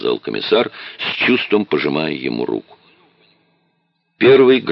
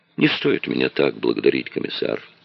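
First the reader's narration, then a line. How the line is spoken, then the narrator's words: Sad reply. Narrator (Russian): печально ответил Дронго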